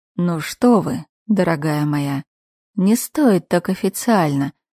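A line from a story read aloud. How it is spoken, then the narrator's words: Sly drawl, smiling man. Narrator (Russian): Коварно улыбнувшись, протянул вдруг мужчина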